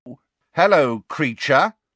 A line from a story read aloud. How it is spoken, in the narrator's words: said Fred very loudly